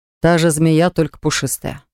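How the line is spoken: Snort. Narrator (Russian): фыркнул Ланс

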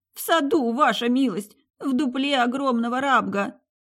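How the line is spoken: Sobbing reply. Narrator (Russian): всхлипнув, ответил Власин

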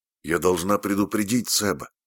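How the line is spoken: Plain. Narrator (Russian): сказала она

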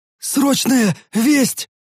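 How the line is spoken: Breathless, exhausted gasp. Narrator (Russian): выдохнул тот, утирая лицо, покрытое обильными каплями пота

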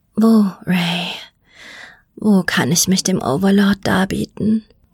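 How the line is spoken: Breathy whisper. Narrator (German): Als sie die Worte hauchte

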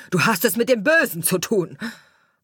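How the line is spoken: Shouting gardener. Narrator (German): schrie der Gärtner

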